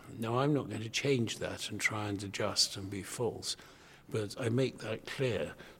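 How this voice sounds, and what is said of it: English public school accent. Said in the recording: “I have a public school accent”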